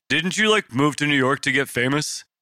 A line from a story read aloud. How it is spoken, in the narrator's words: Tank barked at Tucker across the kitchen